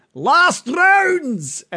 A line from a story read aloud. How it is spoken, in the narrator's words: the booming voice of Toblin calling out